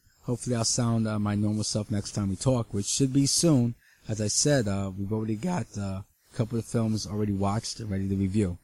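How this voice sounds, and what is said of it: Slightly off, cold-affected voice. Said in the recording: “my voice sounds a little weird. I'm catching a little bit of a cold.”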